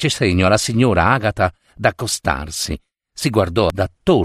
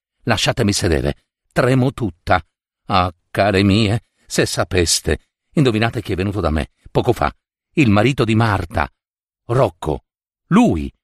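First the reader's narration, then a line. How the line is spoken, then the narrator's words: Astonished hushed joint exclamation. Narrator (Italian): esclamarono insieme sottovoce la madre stupite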